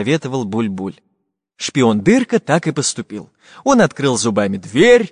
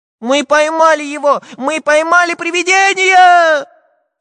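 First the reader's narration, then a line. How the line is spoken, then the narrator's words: Cheerful shouting. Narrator (Russian): весело кричал Прутик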